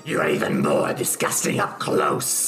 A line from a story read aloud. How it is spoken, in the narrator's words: she snarls and says